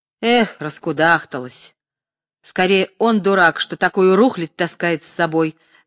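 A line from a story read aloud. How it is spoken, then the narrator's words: Mocking old man. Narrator (Russian): насмешливо сказал старик в халате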